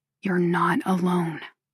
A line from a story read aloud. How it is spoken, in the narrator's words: he whispers again